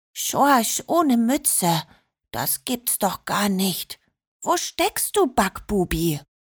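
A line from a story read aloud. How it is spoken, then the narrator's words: Whispered. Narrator (German): flüsterte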